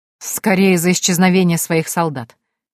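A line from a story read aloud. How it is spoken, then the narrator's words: Smirking grunt. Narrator (Russian): хмыкнул герцог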